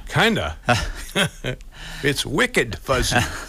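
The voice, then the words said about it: Put-on Boston accent. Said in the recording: “To use a Boston accent.”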